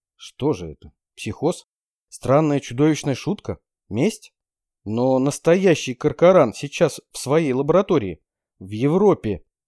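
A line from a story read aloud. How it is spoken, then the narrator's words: Uncertain. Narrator (Russian): неуверенно сказал я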